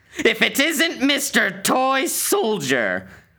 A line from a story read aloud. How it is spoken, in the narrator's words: The old women burst into a cackle